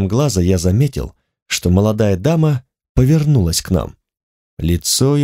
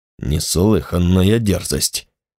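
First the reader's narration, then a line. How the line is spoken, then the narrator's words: Muttered. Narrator (Russian): пробормотал старший дознаватель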